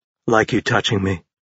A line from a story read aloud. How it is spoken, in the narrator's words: murmured